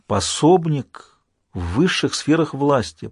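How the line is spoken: Awed whisper. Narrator (Russian): прошептал впечатлившийся Джек

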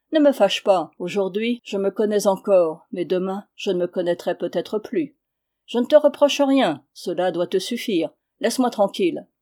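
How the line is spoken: Calm. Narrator (French): dit-il d'un ton calme

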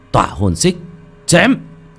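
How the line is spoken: Loud shout. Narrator (Vietnamese): Một tiếng hét lớn vang lên

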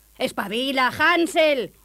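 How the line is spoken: Stepmother shouting. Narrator (Spanish): gritó la madrastra

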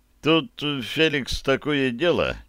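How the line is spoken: Hesitant. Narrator (Russian): неуверенно заговорил Колчак

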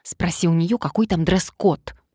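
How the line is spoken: Hissed into ear. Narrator (Russian): прошипела на ухо подруге Мария

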